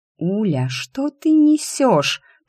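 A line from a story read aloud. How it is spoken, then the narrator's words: Hissed. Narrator (Russian): прошипела Лиська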